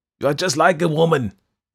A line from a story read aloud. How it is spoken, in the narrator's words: yelled Bearman